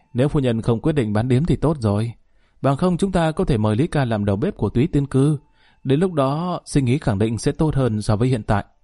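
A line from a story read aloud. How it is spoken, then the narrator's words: Sighing, regretful. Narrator (Vietnamese): bỗng thở dài, mặt mũi tràn đầy tiếc nuối nói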